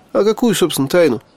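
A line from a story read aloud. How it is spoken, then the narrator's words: Skeptical snort. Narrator (Russian): хмыкнул я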